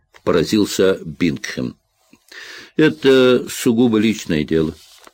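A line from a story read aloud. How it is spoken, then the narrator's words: Plain. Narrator (Russian): ответил Джек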